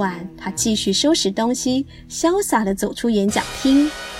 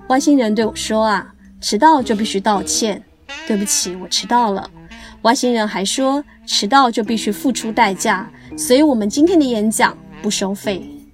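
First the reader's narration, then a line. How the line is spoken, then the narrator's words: Light laugh. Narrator (Chinese): 许荣哲笑了笑，对老板说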